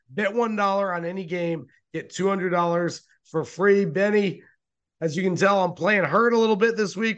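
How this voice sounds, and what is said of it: Hoarse, strained voice. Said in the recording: “My voice is completely shot.”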